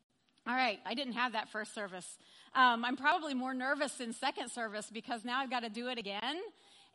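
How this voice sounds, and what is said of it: Slightly hoarse, throaty voice. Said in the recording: “I've got a frog in my throat, too. Excuse me.”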